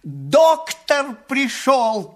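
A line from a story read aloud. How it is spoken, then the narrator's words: Shout then loud laughter. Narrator (Russian): крикнул он и захохотал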